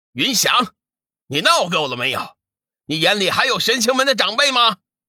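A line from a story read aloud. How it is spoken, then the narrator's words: Stern angry shout. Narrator (Chinese): 天行上人实在是看不下去了，厉声喝道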